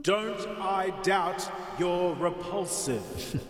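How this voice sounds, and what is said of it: Big booming voice. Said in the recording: “so entertaining when ... voices it like that in his big booming voice.”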